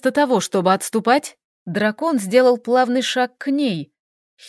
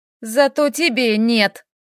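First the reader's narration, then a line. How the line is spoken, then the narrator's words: Gloomy reply. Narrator (Russian): Мрачно ответила Доминика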